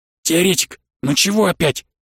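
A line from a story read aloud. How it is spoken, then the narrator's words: Angry hissing whisper. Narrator (Russian): Шепот у Виталия был злым и свистящим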